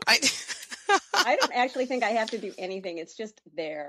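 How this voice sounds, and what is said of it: Minnesota accent. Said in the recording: “someone on with a Minnesota accent ... It's just there. Yeah. It's there and it's charming”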